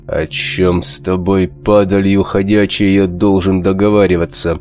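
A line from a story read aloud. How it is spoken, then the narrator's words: Clipped words through teeth. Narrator (Russian): Четко выговаривая слова, процедил сквозь зубы рвач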